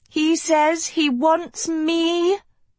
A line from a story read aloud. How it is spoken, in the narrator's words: Sophie bellowed to her waiting army